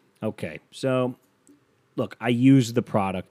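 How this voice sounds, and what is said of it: Usual voice. Nothing is said of it.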